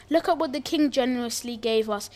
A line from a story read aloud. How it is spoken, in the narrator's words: exclaimed